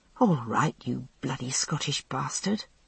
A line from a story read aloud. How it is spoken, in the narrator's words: I said softly